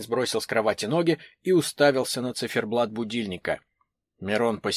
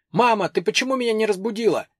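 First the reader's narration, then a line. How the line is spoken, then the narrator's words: Confused shout on waking. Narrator (Russian): он проснулся и, не понимая, что происходит, крикнул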